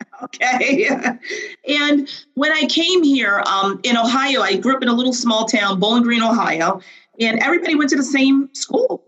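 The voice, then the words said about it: Flat Midwestern American accent. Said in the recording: “as you can hear, I have a very flat Midwestern accent ... I retained my accent”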